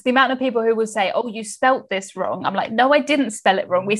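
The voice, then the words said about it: Southern English accent. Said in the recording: “I think I have quite an easy to understand English accent. I'm from the south of England”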